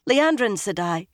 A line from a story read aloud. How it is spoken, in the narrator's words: she said urgently